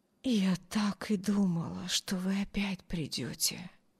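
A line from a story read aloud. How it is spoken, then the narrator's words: Barely audible whisper. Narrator (Russian): едва слышно прошептали ее бледные губы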